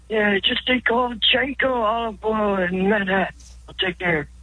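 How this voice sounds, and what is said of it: Deliberately bad impression voice. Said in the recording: “That was a terrible... Terrible impression.”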